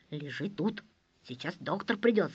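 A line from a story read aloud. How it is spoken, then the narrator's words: Quiet. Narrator (Russian): сказал санитар тихо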